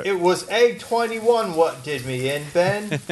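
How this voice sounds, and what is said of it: Deliberately bad put-on accent. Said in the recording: “Jennifer absolutely hates any bad accents I do ... I have no good accents”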